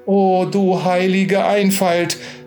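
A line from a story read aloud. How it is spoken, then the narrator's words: Exclamation. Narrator (German): rief da Nina aus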